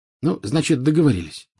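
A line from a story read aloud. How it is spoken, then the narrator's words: Plain. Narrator (Russian): сказал Гарри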